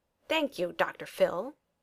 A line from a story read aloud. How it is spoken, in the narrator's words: Tony replied, lips curled in a sneer